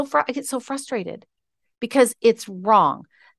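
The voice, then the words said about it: Angry, frustrated voice. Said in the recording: “can you hear it in my voice? Can you hear I'm mad?”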